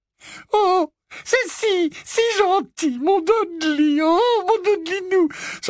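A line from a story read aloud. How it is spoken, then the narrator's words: Muffled sobbing. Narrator (French): sanglota-t-elle, la tête enfouie dans la poitrine massive de son fils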